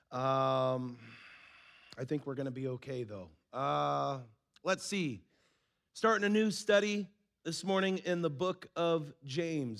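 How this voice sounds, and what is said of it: Hoarse, strained voice. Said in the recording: “As you might be able to tell, I lost my voice”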